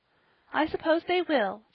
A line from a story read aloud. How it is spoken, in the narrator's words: said Polly, stifling a little sigh